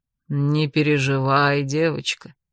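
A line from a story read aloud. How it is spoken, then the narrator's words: Sad reply. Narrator (Russian): печально отозвался на мои мысли тукан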